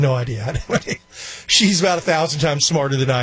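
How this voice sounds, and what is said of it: Usual voice. Nothing is said of it.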